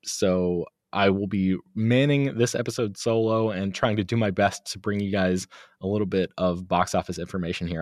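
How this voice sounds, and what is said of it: Congested voice from a cold. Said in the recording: “you might be able to tell from my voice, I'm fighting a bit of a cold. So if I sound strange ... or stranger than usual anyway ... anything bizarre going on with my voice”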